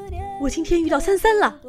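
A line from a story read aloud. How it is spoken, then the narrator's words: Loud shout. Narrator (Chinese): 橙子大喊一声说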